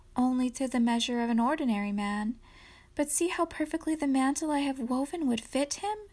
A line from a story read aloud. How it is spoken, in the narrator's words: she answered sadly